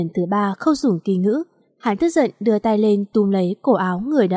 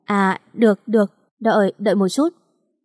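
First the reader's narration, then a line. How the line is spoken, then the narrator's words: Terrified trembling stammer. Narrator (Vietnamese): người đàn ông này khiếp sợ đến run rẩy, lắp bắp nói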